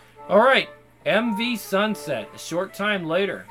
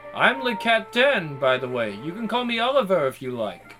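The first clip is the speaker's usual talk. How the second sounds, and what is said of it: Cultivated, clear French accent. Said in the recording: “His French accent feels cultivated to be unmistakable, yet easy to understand”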